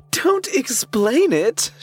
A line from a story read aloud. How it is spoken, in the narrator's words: she wailed